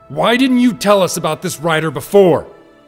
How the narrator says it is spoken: Link roared

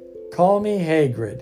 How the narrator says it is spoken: he said

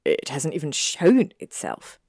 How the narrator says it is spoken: Malfoy asked with a sneer

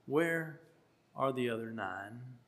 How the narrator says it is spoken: I think he sighed and he said

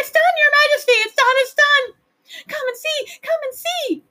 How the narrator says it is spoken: cried the little flukes

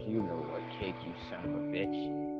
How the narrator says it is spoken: He casually mutters

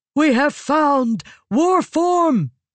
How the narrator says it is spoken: shouted

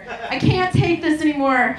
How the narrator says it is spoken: he finally pleaded

